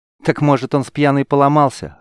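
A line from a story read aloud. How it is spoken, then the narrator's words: Snorting chuckle. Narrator (Russian): хмыкнула Чилита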